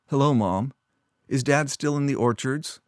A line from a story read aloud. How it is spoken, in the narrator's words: she asked as stiffly as she stood